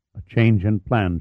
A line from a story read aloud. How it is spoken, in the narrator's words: replied, her voice low and tense